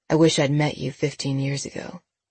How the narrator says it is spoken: he said softly

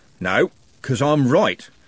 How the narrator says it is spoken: said Constable Haddock evenly

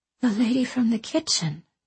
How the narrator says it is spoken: she whispered in awe

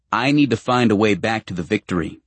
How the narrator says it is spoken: Carlyle says

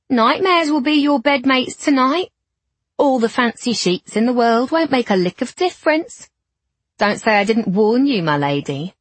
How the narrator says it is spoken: the woman called out in a mocking tone

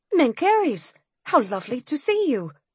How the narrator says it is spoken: I said, in my most innocent tone

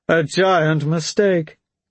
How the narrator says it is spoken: Tekchin chuckled

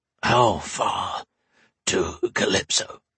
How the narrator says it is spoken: rasped

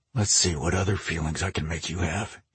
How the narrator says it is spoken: he murmured against her breast

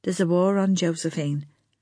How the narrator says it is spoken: Lana said gently

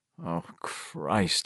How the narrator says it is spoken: he groaned to himself

